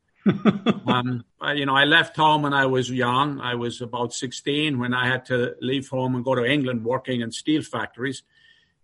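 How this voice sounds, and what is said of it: New York accent. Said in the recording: “I can tell by my accent ... I was born in Ireland ... everybody wants to know why I have such a New York accent.”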